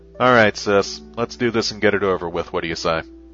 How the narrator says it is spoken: the other woman nodded down at her flatly and said, in a low, monotone voice

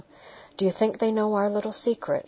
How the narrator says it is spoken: she laughed

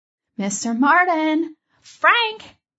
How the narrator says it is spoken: yelled out

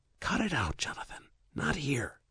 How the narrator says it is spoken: hissing

